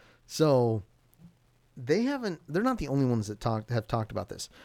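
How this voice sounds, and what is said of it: Usual voice. Nothing is said of it.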